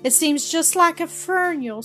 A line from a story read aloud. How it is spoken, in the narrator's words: sobbed Ada